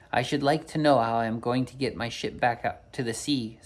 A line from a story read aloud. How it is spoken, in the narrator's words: said the captain